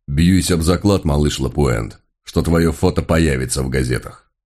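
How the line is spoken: Deep bass voice. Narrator (Russian): пробасил

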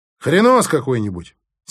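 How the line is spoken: Angry mocking mimicry. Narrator (Russian): сердито передразнила меня Алла

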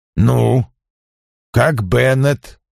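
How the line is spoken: Restrained tone. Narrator (Russian): Я заговорил сдержанным тоном

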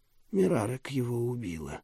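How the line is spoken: Calm. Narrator (Russian): спокойно ответил Уинвард

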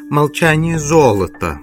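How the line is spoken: Mocking. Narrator (Russian): сказал он насмешливо

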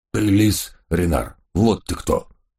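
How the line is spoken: Sudden growl. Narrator (Russian): неожиданно прорычал доберман Гавкинс

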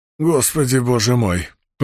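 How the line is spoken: Hoarse croak. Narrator (Russian): прохрипел судья

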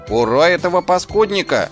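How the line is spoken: Enthusiastic shout. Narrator (Russian): С энтузиазмом прокричал Шнопс

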